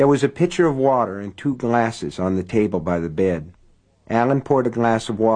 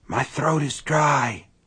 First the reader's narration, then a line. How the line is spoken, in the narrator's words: Sean said in a husky whisper